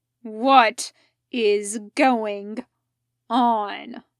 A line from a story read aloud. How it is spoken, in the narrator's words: he growled